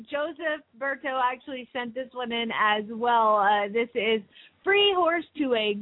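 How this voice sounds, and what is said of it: Usual voice. Nothing is said of it.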